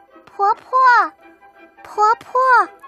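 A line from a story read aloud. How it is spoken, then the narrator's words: Calling out. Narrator (Chinese): 宝珠喊了一声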